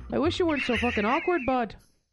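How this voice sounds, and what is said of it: Put-on Canadian accent with Irish tinge. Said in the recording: “what kind of accent would I use with this? ... it's gonna sound almost like my regular one ... it's Canadian with like an Irish just”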